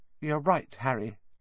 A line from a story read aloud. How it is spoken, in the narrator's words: said Hermione in a small voice